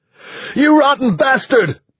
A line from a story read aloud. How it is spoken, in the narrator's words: Peter Bonar shouted